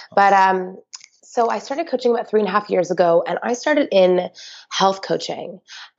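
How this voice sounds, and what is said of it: Voice sounds sick. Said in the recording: “excuse my voice, I'm a little under the weather”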